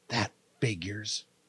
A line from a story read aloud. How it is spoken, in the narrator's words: Sarah whisper